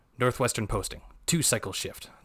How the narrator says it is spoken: the dreg grumbled

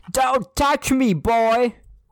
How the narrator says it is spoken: he yelled

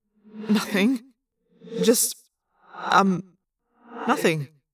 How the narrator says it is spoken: I stammered

